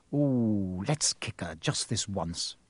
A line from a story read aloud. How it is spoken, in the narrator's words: Ron whispered in Harry's ear